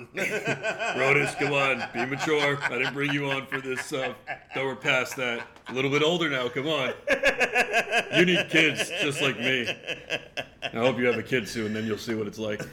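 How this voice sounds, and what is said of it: Imitates another person's voice. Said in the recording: “That was the Nando DeFino impersonation”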